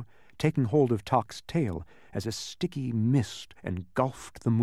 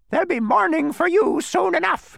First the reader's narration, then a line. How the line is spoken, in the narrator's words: came a reply from directly above, and this was followed by a hideous, cackling laugh, very much like someone choking on a fishbone